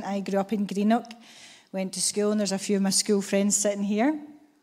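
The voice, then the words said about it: Scottish accent. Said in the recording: “obviously not from Indonesia, as you can tell from the Scottish accent.”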